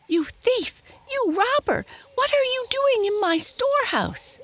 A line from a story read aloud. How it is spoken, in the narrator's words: he shrieked